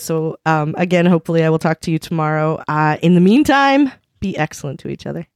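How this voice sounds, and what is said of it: Hoarse, fading voice. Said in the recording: “You may be able to notice, listeners, that I'm slowly losing my voice.”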